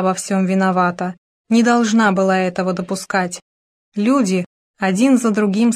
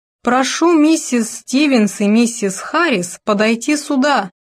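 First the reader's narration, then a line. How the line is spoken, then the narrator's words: Booming over loudspeakers. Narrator (Russian): прогремел из динамиков голос Таннера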